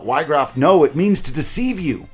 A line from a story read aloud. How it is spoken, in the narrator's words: Ramza screams out